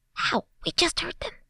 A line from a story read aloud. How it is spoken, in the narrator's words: whispered back, struggling only slightly less